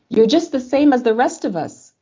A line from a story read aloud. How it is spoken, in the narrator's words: he yelled more, but in French